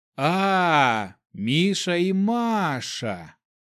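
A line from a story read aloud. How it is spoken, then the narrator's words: Drawn-out questioning. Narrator (Russian): протянул я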